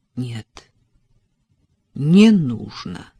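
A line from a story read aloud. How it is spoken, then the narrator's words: Firm and stern. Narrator (Russian): Его голос звучал твердо и строго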